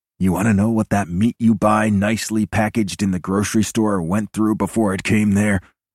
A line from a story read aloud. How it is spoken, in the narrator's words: I growl at her